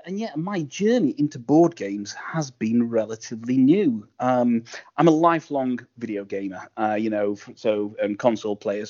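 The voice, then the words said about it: Sheffield northern English accent. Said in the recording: “I live in Sheffield in the north of England ... Sean Bean from Game of Thrones is from Sheffield. So if the accent sounds a little bit familiar, it's because we're from the same kind of city.”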